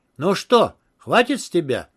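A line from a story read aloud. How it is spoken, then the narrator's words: Triumphant exclamation. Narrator (Russian): победно воскликнул Моукер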